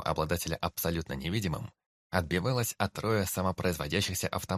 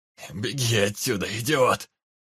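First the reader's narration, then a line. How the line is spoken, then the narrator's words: Stranger's hoarse shout. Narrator (Russian): хрипло крикнул незнакомец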